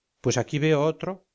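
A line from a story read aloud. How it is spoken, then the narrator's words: Plain. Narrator (Spanish): dijo Castillo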